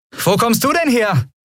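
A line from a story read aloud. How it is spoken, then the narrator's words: Call. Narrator (German): rief Andriel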